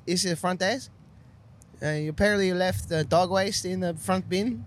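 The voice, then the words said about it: Put-on Latino accent. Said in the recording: “I did a accent for the young Latino boy in the front ... Yeah, it was really good.”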